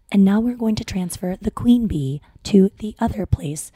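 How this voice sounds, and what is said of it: Soft, calm ASMR-style voice. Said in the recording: “She's my favorite ASMR voice. I watch it and I just feel so relaxed.”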